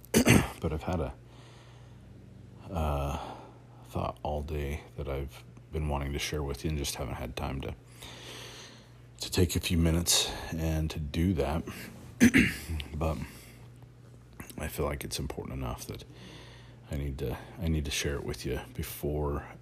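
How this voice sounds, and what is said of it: Talking very quietly. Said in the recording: “I'm talking really quiet”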